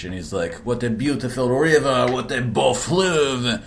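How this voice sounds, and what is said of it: Bad put-on French accent. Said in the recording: “Your French accent's terrible.”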